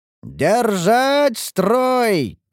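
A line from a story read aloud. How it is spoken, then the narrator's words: Commander's shout. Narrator (Russian): кричал командир защитников Ингарда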